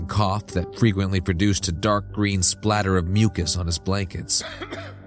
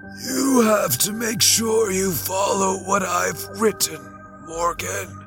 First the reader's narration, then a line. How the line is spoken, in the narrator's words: he wheezed